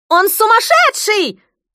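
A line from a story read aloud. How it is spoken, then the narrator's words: Shrill female shriek. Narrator (Russian): взвизгнул пронзительный женский голос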